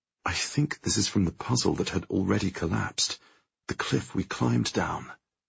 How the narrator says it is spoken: I murmur

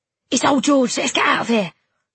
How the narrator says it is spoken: Tom said urgently

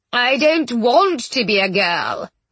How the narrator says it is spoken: whined Mr

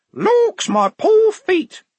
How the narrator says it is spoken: in varying tones of fingernail screech

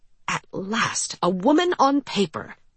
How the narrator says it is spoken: he famously exclaimed

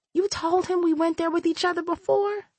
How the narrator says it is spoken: She whispered

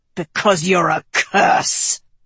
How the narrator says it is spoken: her father snarled

